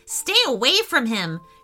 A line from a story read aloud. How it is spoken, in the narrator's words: shouted Roxy